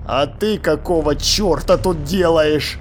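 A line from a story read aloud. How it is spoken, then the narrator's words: Growled reply. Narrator (Russian): прорычал в ответ Ваймс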